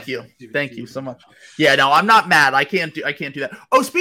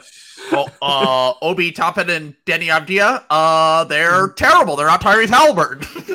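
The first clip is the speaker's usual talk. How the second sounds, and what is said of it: Imitates another person's voice. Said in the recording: “he's somehow become a mashy guy in the middle of this fucking impersonation.”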